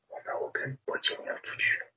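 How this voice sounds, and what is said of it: Very quiet, hushed speech. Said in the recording (Chinese): “最好小声一点说 ... 我觉得太小声了”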